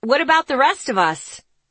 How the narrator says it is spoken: Someone shouted

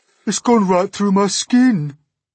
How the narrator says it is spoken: the earthworm groaned

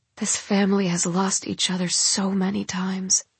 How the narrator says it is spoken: she whispers

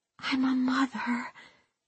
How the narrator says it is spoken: she whispered

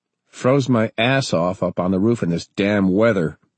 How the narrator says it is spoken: Ernie growled

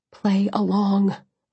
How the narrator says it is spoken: I begged

